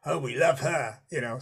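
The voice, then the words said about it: Poor imitation of Australian accent. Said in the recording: “really bad Australian accent”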